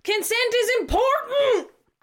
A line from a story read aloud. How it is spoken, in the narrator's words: I'm yelling